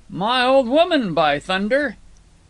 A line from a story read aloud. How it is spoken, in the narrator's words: Brown, with a hysterical laugh, greeted